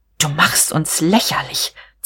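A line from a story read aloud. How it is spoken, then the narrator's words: Hissed. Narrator (German): zischte sie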